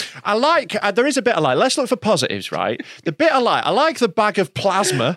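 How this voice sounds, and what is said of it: Usual voice. Nothing is said of it.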